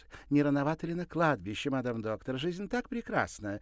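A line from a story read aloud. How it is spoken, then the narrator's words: Cheerful exclamation. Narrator (Russian): весело воскликнула Клариса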